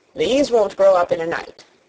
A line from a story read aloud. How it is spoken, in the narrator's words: said Weatherstaff